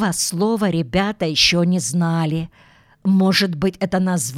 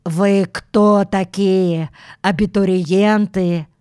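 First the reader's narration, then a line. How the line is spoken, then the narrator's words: Deep stern voice. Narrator (Russian): густой низкий голос строго спросил сквозь усы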